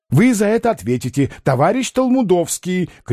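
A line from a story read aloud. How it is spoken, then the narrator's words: Shouted. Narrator (Russian): крикнул длиннополый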